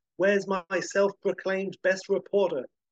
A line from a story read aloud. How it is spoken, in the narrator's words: a gruff man he shouts